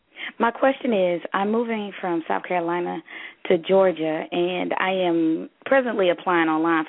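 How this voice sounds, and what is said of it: Southern US accent. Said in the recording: “I heard that southern accent in you real quick ... Originally, I'm from Alabama ... You sound more yes. Alabama”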